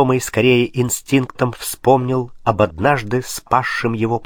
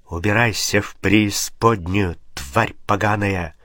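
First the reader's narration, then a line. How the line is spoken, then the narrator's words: Inhuman hissing. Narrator (Russian): Она ответила шипением, уже не имевшим ничего общего с человеческой речью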